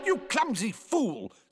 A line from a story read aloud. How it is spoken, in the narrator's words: snapped the violins